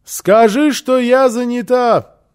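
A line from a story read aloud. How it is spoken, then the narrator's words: Shouted through closed door. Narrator (Russian): крикнула в ответ Фрёкенбок из-за закрытой двери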